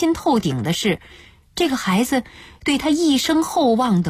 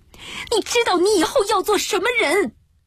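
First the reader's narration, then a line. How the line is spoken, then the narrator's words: Mother shouting. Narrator (Chinese): 母亲揍他屁股时，会对他叫喊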